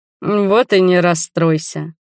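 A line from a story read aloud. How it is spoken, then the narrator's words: Fake sigh. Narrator (Russian): притворно вздохнул Ральф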